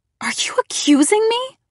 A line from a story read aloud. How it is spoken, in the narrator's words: I cried